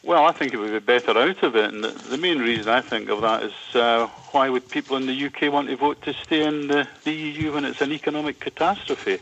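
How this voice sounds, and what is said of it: Scottish accent. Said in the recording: “that accent ... a very Scottish moment”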